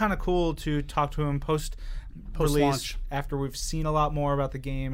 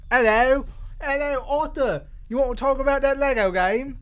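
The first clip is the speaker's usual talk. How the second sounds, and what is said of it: Put-on British accent. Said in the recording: “You should also warm up your accent. ... So you'll fit it right in over there.”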